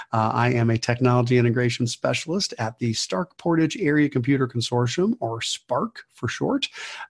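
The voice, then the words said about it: Sick, strained voice. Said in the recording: “I may not sound like myself at the moment, battling a bit of a upper respiratory infection ... my voice is not quite there”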